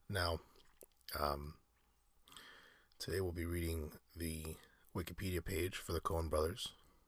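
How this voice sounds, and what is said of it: Slightly sick-sounding voice. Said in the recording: “you may be able to tell from my voice I'm feeling a little bit under the weather ... if you hear me a little different”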